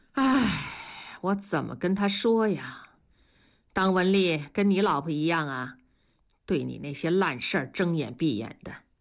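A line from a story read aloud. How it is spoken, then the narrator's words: Sighing. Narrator (Chinese): 同志叹了口气说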